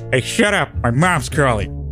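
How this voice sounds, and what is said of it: Poor Peter Griffin cartoon voice impression. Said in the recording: “my terrible Peter Griffin impression”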